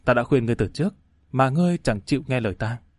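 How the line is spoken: Sighing mutter. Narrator (Vietnamese): Giang Thanh thở dài lẩm bẩm

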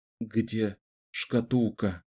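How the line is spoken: Strained whisper. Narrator (Russian): прошептал Ричард, с трудом выдавливая из себя слова

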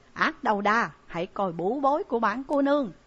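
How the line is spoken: Shouting. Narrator (Vietnamese): Trại Nhiếp Ẩn hét

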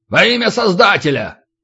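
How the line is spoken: Barked. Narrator (Russian): Рявкнул

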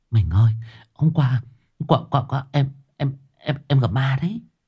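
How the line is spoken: Hurried whisper. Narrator (Vietnamese): Ả vội vàng thì thầm

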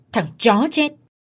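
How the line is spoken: Angry glaring shout. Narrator (Vietnamese): Tên chủ sòng trợn mắt quát lên

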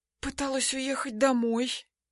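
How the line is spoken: Whispered. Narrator (Russian): шепотом отвечаю

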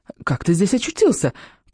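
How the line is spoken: Trembling babble. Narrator (Russian): пролепетала она дрожащими губами

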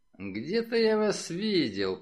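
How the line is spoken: Mutter. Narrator (Russian): пробормотал Миган

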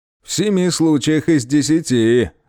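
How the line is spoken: Chuckle. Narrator (Russian): хохотнул Щербатый

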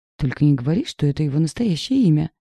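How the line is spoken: Joyless laugh. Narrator (Russian): Невесело рассмеялась она

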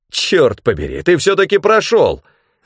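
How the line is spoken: Exclaimed. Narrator (Russian): воскликнул Бранд

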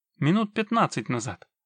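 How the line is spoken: Brisk half-orc report. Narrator (Russian): бодро доложила полуорка

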